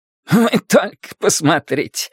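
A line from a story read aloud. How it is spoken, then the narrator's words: Exclaiming. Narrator (Russian): воскликнул Мел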